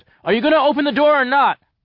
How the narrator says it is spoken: I yelled

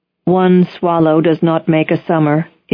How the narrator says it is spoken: it said

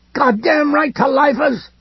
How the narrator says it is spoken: the running man cried

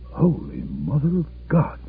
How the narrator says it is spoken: he murmured

